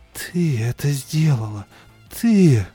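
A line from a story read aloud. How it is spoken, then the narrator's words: Strained, hollow voice. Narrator (Russian): Она говорит с трудом, глухим голосом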